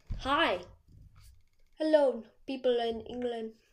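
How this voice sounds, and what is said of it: Attempted British accent. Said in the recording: “I'm trying to do a British accent. I used to be so good at it.”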